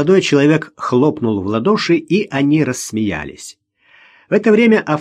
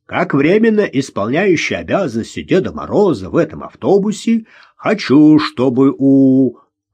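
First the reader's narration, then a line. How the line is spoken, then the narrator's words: Joking deep bass. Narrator (Russian): Молодой человек шутливо пробасил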